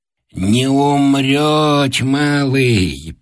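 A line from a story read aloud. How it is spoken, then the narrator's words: Toothless mumbling. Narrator (Russian): прошамкала Анисья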